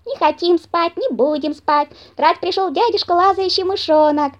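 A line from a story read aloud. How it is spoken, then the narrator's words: Young squirrels shouting. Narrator (Russian): Закричали бельчата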